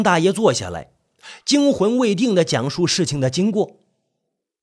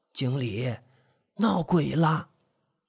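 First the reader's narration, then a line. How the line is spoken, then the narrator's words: Old man, low voice. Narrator (Chinese): 张大爷低声说道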